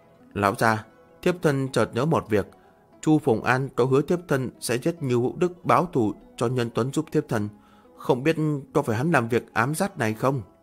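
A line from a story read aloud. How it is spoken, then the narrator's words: Anxious, quiet. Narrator (Vietnamese): Cha Như Diễm bất an nhỏ giọng nói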